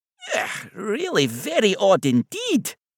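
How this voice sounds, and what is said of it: Soft Scottish accent. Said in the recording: “a voice with a soft Scottish accent”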